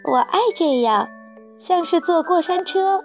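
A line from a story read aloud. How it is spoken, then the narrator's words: Shouting. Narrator (Chinese): 查理叫道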